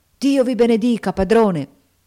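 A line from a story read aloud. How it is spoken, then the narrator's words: Tearful, heartfelt exclamation. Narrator (Italian): Gli occhi di Tom si inumidirono e col più vivo del cuore egli esclamò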